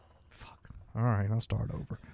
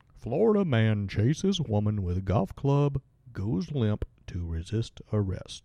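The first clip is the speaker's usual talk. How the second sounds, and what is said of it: Mock professional radio announcer voice. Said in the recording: “You like that voice a little bit better? ... Do I sound like Les Nessman or something, you know, from WKRP? I mean, really professional? ... my professional radio voice. ... That was more Walter Cronkite-ish, wasn't it?”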